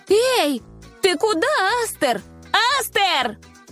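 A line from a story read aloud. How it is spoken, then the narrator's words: Shouting. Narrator (Russian): Крикнула она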